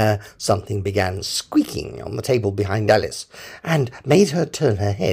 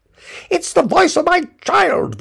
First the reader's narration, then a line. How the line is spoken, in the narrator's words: the White Queen cried out